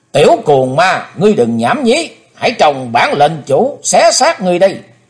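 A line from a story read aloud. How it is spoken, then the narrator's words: Shout. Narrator (Vietnamese): tiếng quát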